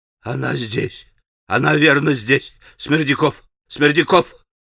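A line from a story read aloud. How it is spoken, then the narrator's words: Barely audible wheeze, old man. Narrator (Russian): чуть слышно хрипел старик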